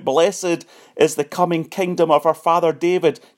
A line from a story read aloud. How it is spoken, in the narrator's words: They cried out